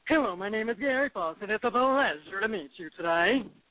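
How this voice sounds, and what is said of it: Woman doing a very deep man's voice. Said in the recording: “I do this man voice. So it's like this really deep ... deep man voice”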